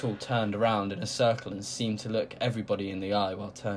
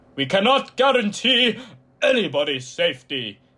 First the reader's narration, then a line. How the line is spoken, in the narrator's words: he roared